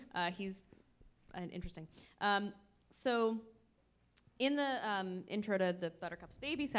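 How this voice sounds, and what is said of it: Usual voice. Nothing is said of it.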